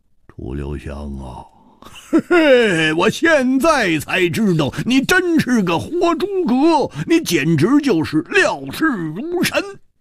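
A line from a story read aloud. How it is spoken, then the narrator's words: Wry bitter laugh. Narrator (Chinese): 胡铁花……苦笑着说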